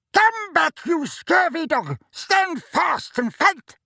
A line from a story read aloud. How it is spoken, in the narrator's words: yelled Sir Cadogan in a muffled voice from behind his visor